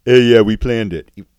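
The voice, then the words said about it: Imitates another person's voice. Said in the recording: “Scott Hall doing a Triple H impersonation.”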